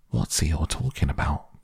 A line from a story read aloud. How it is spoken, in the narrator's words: Piglet whispered to Pooh